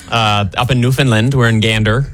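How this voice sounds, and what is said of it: Put-on Newfoundland accent. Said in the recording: “that Newfoundland accent ... it's like Canadian-Irish, like smashed together ... You guys crushed that.”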